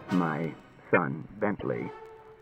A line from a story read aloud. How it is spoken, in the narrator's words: said Bailey in a low voice